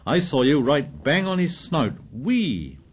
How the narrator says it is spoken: Ralph talked on excitedly

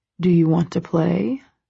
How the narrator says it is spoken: He says, his voice low

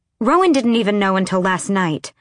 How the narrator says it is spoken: she snapped

